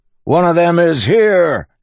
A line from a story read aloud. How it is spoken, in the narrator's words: he shouted